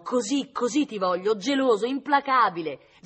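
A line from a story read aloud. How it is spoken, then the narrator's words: Exclaimed. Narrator (Italian): esclamò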